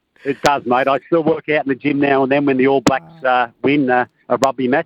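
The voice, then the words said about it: Strong Australian accent. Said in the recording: “can you tone that Aussie accent down a little bit? ... That voice. That is the voice of an Australian cricket fan”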